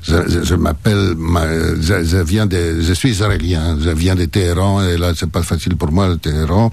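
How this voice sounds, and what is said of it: Thick foreign accent. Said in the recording (French): “accent à couper au couteau”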